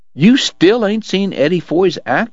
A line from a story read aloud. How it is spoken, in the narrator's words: Morgan cried around a mouthful of deer meat